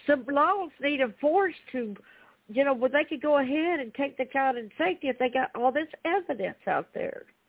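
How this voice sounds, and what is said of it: Speaks with a twang. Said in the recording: “I like that twang.”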